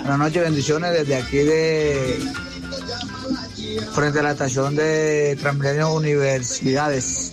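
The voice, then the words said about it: Pasto Colombian accent. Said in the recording (Spanish): “ese man tiene que ser por allá pastuso. Ah, con ese acento.”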